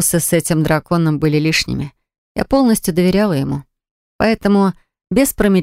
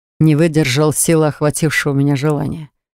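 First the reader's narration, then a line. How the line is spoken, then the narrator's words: Smirking dragon. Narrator (Russian): хмыкнул дракон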